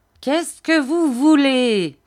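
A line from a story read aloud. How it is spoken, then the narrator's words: Fierce old man shouting. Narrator (French): cria le vieillard d'un ton féroce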